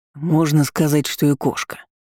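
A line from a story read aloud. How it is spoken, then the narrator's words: Gloomy hoarse rasp. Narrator (Russian): мрачно прохрипел Арман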